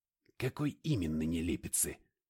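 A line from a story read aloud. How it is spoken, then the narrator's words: Grunting. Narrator (Russian): Он снова хмыкнул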